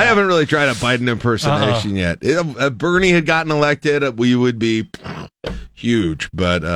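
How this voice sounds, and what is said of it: Usual voice. Nothing is said of it.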